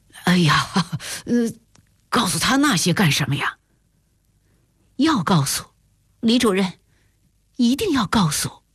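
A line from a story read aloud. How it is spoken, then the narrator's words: Awkward embarrassed laugh. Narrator (Chinese): 李主任愣了愣，讪笑道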